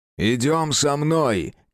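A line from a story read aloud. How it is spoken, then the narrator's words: Shouted. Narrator (Russian): крикнул кому-то из девушек Джеральд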